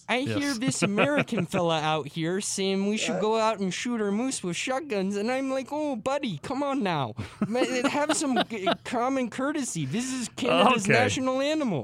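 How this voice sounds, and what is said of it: Put-on Canadian accent. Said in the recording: “We get you do a good Canadian accent. That's terrific”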